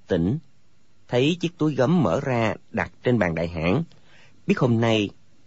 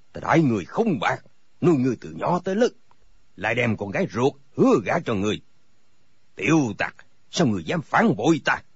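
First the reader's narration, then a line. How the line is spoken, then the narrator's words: Angry shout. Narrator (Vietnamese): Thành các tư hãn bộ mặt giận dữ, đập bàn một cái quát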